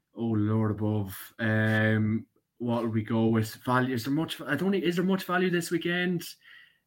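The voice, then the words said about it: Irish Cavan accent. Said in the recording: “your wonderful guest accent. I thought from Anna, then Armagh and Leitrim. Having good Irish ulcer ... Cavan all the way. I know it's probably very up and down ... Cavan for my sins”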